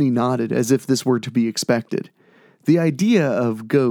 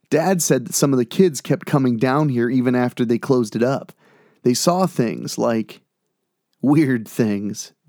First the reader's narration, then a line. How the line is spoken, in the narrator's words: James said